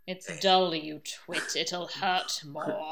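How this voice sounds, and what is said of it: Good Snape impression, Alan Rickman. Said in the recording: “I can't even do a Snape impression ... Yeah, actually, that's a very good version of it.”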